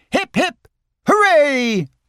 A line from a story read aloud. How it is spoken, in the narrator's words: cried the others